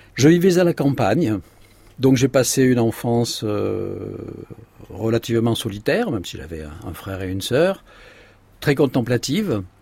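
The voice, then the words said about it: Provençal southern French accent. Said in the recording (French): “vous l'entendez à mon accent provençal, je suis né dans le midi de la France”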